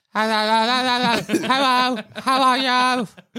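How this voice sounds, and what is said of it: Imitates a bird's voice. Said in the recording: “best bird impression”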